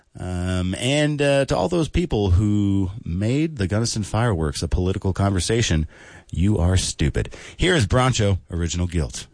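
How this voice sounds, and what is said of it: Smoke-affected radio voice. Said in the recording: “The Fires suck, but I will say it's doing a lot for my radio voice.”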